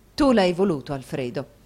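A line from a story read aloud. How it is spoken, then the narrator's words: Softened reproachful reply. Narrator (Italian): rispose Madama Mantalini ancora in tono di rimbrotto ma rammorbidito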